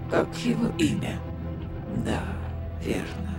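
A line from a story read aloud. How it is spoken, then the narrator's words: Whisper. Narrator (Russian): прошептал Раван, словно кто-то ему подсказал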